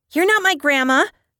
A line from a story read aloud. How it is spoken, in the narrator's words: the little girl blurted out